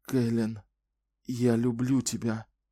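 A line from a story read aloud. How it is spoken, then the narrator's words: Whisper. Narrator (Russian): прошептал он в темноту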